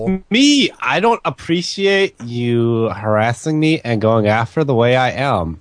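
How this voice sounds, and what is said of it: Put-on California voice, rising question intonation. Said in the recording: “the accent both you two are doing, ... and ... is the California. I'm gonna make every sentence I say a question at the end of it ... That gay, speech impediment voice that they put on, it's a put-on thing”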